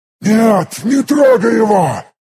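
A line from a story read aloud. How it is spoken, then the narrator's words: Shouting, broken creature. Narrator (Russian): закричал на своем языке полуразбитый альвес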